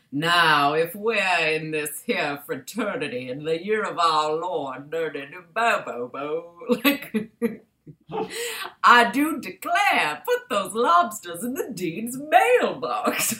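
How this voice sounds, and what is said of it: Exaggerated old-fashioned Southern accent. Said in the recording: “his natural accent, which was like a Tennessee Williams era Blanche DuBois accent.”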